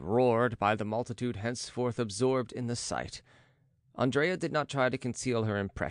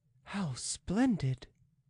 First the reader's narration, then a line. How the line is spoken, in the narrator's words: she murmured